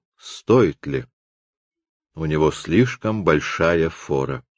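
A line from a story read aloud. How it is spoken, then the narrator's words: Whisper. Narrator (Russian): Люпен он прошептал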